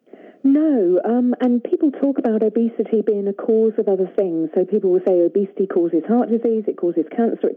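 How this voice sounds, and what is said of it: British accent. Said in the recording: “You have a delightful accent ... a British accent”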